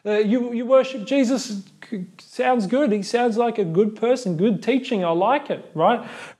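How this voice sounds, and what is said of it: Put-on Australian accent. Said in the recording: “I'm sure they spoke in Australian, right?”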